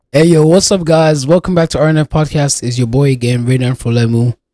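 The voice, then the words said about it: Sick-sounding voice. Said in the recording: “sorry about my voice. ... I'm a little bit under the weather. I'm a little bit sick”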